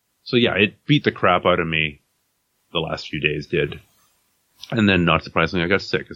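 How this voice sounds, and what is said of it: Congested, sick-sounding voice. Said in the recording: “I came down with a cold after that. And I'm just getting over it. You might hear it in my voice.”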